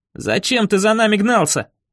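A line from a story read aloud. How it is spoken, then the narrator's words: Yelling. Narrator (Russian): завопил я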